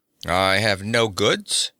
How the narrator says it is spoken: growled the Cimmerian

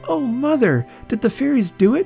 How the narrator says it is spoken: cried Tilly, pale with her happiness

